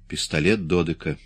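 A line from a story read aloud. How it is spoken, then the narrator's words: Plain. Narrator (Russian): сказал он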